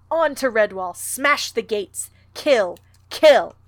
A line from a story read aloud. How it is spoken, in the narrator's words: shouts of the horde